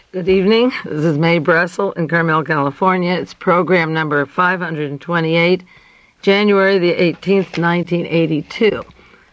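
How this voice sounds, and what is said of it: Hoarse, tired voice. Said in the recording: “My voice is hoarse this evening... it's just hoarse and tired from a difficult week I just spent in L.A.”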